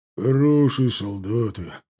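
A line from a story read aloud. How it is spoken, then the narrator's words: Grumbling. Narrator (Russian): проворчал … Кудряш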